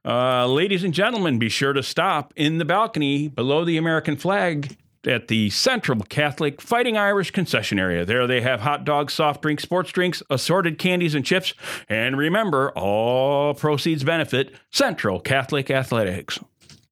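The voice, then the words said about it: Stadium announcer voice. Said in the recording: “announcer voice ... concession announcement”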